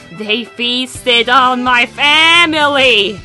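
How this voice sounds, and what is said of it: Creepy spooky voice. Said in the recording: “my creepy voice right here ... Oh yes, absolutely creepy stuff”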